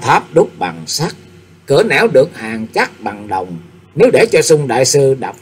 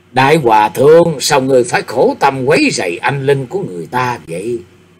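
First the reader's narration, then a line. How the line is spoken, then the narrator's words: Sighing. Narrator (Vietnamese): Tịch Ứng Chân thở dài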